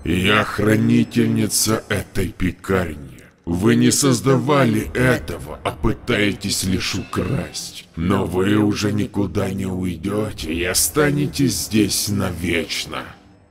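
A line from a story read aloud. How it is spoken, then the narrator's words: Terrifying creature voice. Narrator (Russian): тварь страшным голосом ответила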